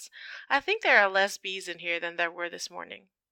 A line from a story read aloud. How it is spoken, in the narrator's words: Harry drawls